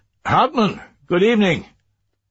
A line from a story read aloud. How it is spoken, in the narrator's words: Kort called out to him